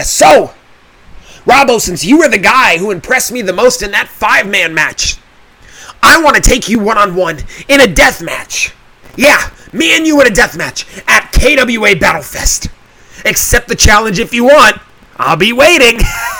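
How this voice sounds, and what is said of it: Imitates another person's voice. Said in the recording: “a decent Chaos the Clown impersonation”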